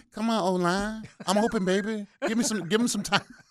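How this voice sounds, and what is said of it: Imitates another person's voice. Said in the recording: “in my Keenan McCardell voice”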